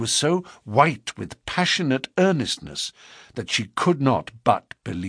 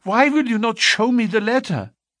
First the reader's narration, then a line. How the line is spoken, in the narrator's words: she cried